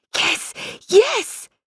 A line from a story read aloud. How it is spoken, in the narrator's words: Tansy squealed with pleasure